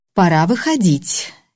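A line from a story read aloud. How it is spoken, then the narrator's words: Carefully neutral tone. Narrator (Russian): я постаралась сказать это предельно нейтральным тоном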